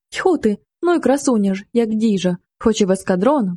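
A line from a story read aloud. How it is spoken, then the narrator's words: Exclaiming while bursting with laughter. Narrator (Ukrainian): вигукнув солдат, пирскаючи зо сміху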